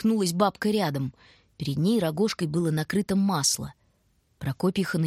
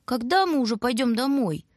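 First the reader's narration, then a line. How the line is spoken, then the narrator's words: Whining. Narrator (Russian): Снова заскулил Бобка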